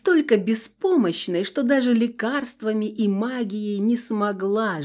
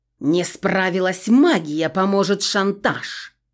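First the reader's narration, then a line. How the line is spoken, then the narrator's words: Growled. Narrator (Russian): прорычала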